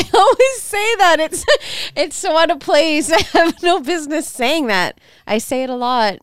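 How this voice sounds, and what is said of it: Usual voice. Nothing is said of it.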